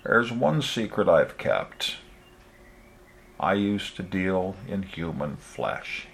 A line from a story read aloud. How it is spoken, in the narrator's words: said quietly